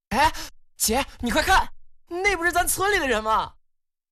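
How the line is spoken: Sudden cry. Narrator (Chinese): 忽然叫了起来

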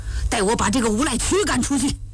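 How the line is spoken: Furious. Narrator (Chinese): 乔泰怒气冲冲地说

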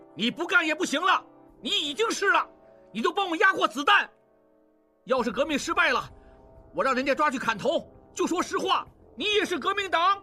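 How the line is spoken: Shouting amid gunfire. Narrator (Chinese): 应季 一边射击一边喊

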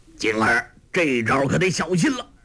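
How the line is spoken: Calling out. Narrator (Chinese): 洪七公叫道

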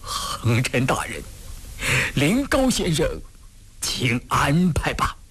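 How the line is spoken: Choked with sobs. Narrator (Chinese): 他哭得脸色黄中透白，他哽咽着

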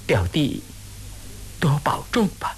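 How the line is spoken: Soft sighing. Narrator (Chinese): 金凤姑低垂了头，心知吴思道对自己怨恚不解，当着墨雨无法深谈，只是叹息了一声，轻声地说

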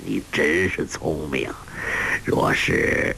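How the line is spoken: Saddened, breaking off. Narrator (Chinese): 心中一酸，住口不语了

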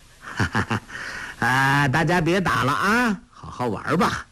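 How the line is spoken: Smiling. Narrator (Chinese): 笑吟吟地下马说道

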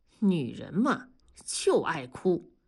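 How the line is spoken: Sighing remark. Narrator (Chinese): 同志感叹地说

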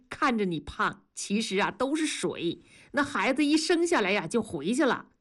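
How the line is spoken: Laughing. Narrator (Chinese): 庄嫂笑着说

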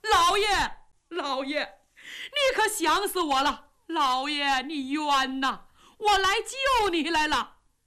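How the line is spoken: Loud wailing sobs. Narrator (Chinese): 这个人 放声痛哭

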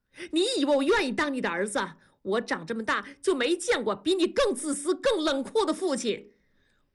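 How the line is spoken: Sudden shout. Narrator (Chinese): 大宝突然的吼叫

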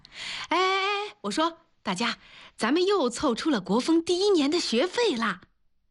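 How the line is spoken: Loud shout into microphone. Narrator (Chinese): 拿起麦克风，大声地喊

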